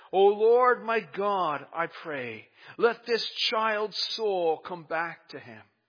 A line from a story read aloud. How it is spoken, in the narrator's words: cried out to the Lord and said